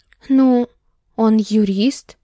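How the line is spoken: Uncertain voice. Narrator (Russian): мой голос звучал так неуверенно

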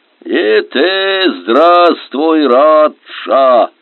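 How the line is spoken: Friendly booming. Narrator (Russian): прогудел он приветливо

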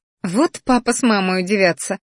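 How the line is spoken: Chuckling to herself. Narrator (Russian): хохотнула про себя

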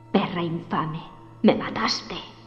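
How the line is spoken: Muttered. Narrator (Spanish): masculló

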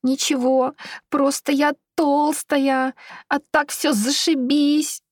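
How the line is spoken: Sobbing. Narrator (Russian): всхлипывала Вероника

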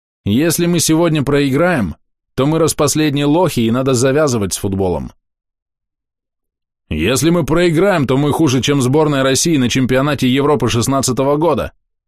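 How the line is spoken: Sudden roar. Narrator (Russian): Вдруг взревел киллер

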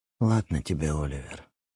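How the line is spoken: Said quietly. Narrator (Russian): тихо сказала она

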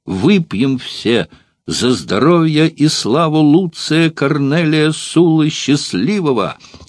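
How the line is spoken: Exclaimed in clear, resonant voice. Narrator (Russian): воскликнул своим чистым и звучным голосом Квинт Росций

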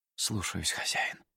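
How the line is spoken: Obedient whisper. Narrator (Russian): послушно прошептал комет

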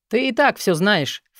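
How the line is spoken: Scornful snort. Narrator (Russian): фыркнул Мор

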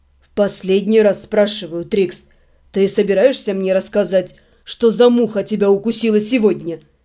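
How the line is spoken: Icy inquiry. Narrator (Russian): Прежним ледяным тоном осведомился Себастьян

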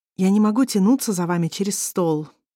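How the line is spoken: Resigned sigh. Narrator (Russian): вздохнула Сарона, понимая, что ее уже никто не будет слушать

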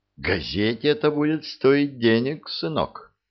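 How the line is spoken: Plain. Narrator (Russian): сказал он

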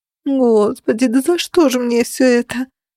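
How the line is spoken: Whimpering. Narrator (Russian): захныкала

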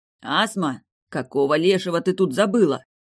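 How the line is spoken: Cracked growl. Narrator (Russian): Прорычал из мрака надтреснутый голос

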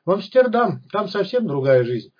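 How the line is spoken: Joyful whoop. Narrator (Russian): радостно гикнул Иван Максимович

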